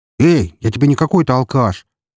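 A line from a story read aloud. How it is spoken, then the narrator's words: Angry shout. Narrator (Russian): гневно выкрикнул Эмилио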